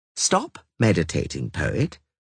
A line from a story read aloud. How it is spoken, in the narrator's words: Regis said kindly